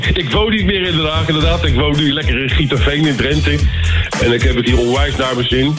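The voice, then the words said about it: Hague Dutch accent. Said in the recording (Dutch): “qua accent toch wel je roots niet bent kwijtgeraakt ... bijna 40 jaar in Den Haag hebt gewoond, dan dat accent”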